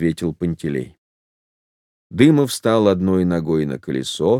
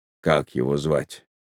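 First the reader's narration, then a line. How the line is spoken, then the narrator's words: Quiet question. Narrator (Russian): Дымов спросил тихо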